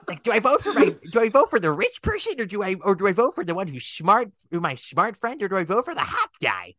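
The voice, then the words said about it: Puppet character voice. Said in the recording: “I need to do my Rad voice... Now my Rod's just gonna become Carol Channing.”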